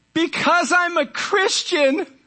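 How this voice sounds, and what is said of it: Yelled line. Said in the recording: “I'm yelling”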